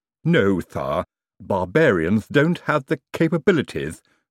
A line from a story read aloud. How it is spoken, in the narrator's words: said Igor smoothly